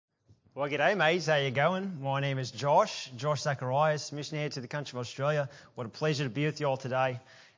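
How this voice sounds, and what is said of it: Put-on Australian accent. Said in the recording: “my best Ken Ham impersonation. I don't know if I did okay or not ... I don't have that natural Australian accent”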